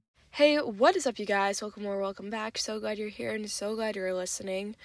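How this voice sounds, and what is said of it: Stuffed-up, congested voice. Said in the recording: “if I sound stuffed up. ... I do have a slight cold right now”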